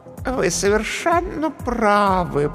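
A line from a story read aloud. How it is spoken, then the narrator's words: Cooing. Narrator (Russian): проворковала комедия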